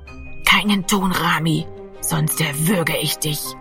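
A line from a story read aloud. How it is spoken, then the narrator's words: Threatening whisper. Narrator (German): flüsterte Giro an seinem Ohr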